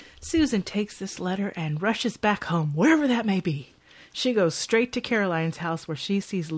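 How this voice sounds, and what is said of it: Usual voice. Nothing is said of it.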